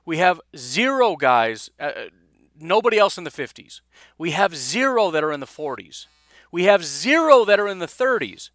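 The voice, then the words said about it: Dramatic emphatic inflection. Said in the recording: “Do you hear the inflection in my voice? This is a dramatic effect.”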